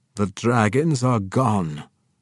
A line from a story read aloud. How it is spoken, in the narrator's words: Gromp flatly replied